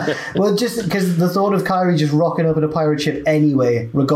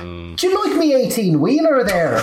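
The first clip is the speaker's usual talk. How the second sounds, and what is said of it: Horrible put-on accent. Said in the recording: “the horrible accent that”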